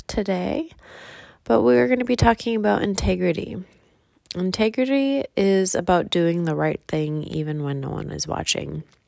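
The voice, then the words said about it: Congested voice from a cold. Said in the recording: “I have a little bit of a cold”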